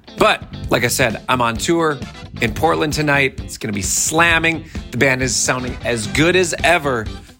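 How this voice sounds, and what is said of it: Voice sounds a little weird. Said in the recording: “My voice sounds a little weird today because I'm working with some dry bus air ... the air is just really dry at night, and this morning my voice sounds like this.”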